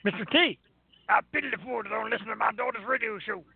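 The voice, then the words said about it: Imitates another person's voice. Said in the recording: “My impersonation ... horrible impersonations”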